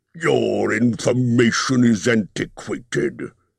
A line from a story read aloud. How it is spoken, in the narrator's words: he snapped